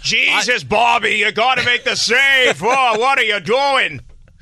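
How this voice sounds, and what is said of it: Dramatic Boston hockey fan voice. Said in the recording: “a very like dramatic, almost like Bostonian like hockey fan voice”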